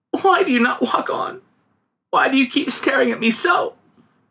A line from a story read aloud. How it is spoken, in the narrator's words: sobbed the girl